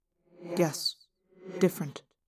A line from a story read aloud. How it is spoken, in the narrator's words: I muttered